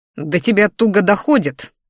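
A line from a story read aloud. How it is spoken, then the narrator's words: Growled. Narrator (Russian): рыкнул я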